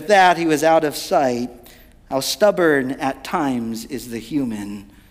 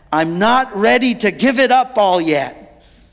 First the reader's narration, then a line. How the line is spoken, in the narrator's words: he shouted back